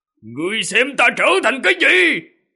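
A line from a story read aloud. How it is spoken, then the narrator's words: Roaring. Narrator (Vietnamese): Ô Cổ gào một tiếng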